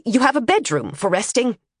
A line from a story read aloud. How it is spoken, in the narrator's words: the tutor snapped, interrupting Emily